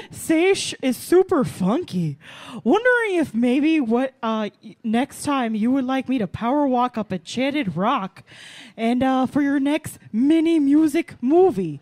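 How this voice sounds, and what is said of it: Imitates another person's voice. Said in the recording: “I'll try to do this in my best Lorraine impression as possible ... It's really hard ... It's very difficult”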